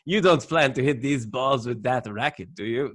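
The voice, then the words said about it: Put-on Eastern European accent, admittedly bad. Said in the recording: “My accents are going to be horrible through this, but I love the Milos accent, that Eastern European.”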